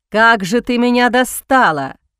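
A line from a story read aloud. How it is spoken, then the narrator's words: Roar. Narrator (Russian): взревел он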